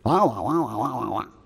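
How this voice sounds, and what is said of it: Droning Charlie Brown teacher wah-wah voice. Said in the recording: “That was pretty good impression to me, wasn't it? ... Like Charlie Brown's teacher, you know, wah, wah, wah, wah, wah, wah.”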